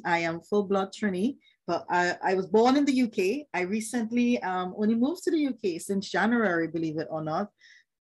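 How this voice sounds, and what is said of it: Caribbean accent. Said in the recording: “I have a Caribbean accent”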